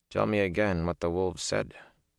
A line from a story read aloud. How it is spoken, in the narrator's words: Ingtar said softly